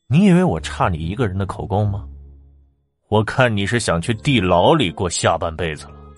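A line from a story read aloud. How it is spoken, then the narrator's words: Cold laugh. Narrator (Chinese): 李定鼎冷笑起来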